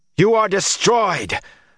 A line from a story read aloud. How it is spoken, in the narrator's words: Rand shouted